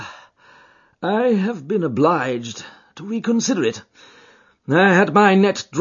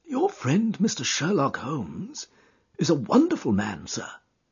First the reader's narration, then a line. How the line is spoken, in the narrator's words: said he in a husky and confidential voice